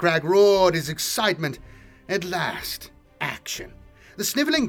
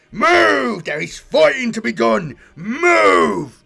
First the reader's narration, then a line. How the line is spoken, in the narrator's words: bellowed